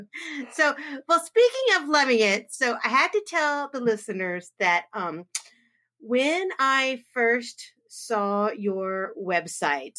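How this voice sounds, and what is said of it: Slight Southern American accent. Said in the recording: “your beautiful accent ... there's a little Southern in here.”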